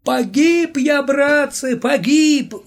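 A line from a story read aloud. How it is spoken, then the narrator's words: Wailing. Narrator (Russian): взвыл Володя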